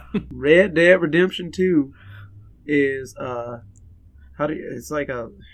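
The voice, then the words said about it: Put-on cowboy voice. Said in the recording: “You did a cowboy voice.”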